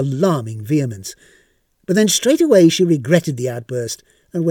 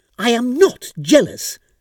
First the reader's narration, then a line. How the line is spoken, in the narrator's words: snapped Mrs